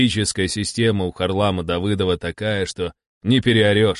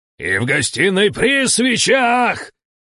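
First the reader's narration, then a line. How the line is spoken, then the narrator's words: Yelled at full voice. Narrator (Russian): орал я во весь голос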